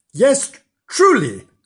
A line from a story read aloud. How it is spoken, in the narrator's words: cried the man